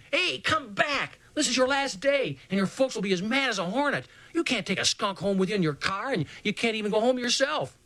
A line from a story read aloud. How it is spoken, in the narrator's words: yelled